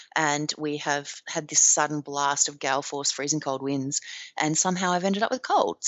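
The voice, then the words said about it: Husky voice from a cold. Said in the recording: “my voice is even a little bit huskier than usual this week because I have collected myself a cold”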